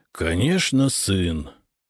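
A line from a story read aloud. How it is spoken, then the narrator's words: Tired reply. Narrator (Russian): устало ответил банкир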